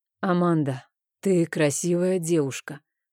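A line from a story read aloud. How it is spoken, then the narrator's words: Hoarse voice. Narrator (Russian): хриплым голосом произнес Рейн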